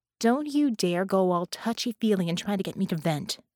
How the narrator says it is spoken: said sharply

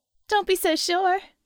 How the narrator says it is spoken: Harmony laughed

